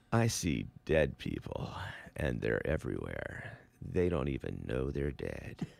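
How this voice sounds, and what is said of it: Mock sexy movie-trailer voice. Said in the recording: “that's my sexy voice ... It almost sounds like a theater ... Coming soon ... I would sound like a movie trailer, too.”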